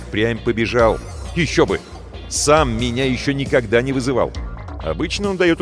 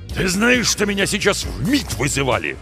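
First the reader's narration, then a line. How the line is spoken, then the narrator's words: Loud barking shout. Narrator (Russian): гаркнул шеф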